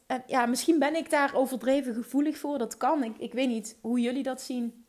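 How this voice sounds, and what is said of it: Limburg Dutch accent. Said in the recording (Dutch): “ik praat Limburgs, ik heb een Limburgs accent ... mijn Limburgse accent”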